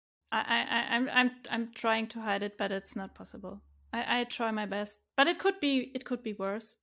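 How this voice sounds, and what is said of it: German-accented English. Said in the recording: “I talk to a German guy all the time. Actually, I talked to another German guy who's got no German accent at all.”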